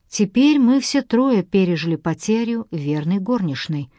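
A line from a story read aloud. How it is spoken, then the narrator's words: Sad. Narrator (Russian): грустно сказала Сьюзен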